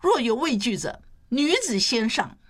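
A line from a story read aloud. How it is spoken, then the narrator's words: Loud voice. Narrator (Chinese): 他高声说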